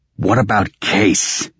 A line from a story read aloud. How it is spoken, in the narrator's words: Raven snapped